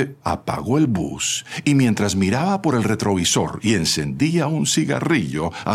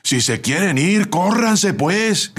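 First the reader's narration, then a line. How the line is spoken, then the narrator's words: Assistant shouting from outside. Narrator (Spanish): gritó el ayudante desde afuera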